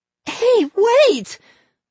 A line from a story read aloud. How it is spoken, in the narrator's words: Molly screamed